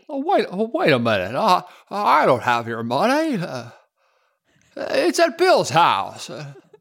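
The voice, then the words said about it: Impression of It's a Wonderful Life character. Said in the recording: “that impression. ... That's terrible. ... I thought it was really good.”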